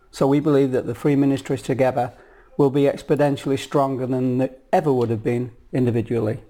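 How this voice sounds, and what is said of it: Yorkshire, Northern English accent. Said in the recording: “I'm not from the US or Colombia, as you might ascertain from my accent. ... I'm from Yorkshire ... North of England, born and bred”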